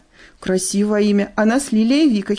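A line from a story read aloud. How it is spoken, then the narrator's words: Girls giggling. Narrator (Russian): хихикнули девчата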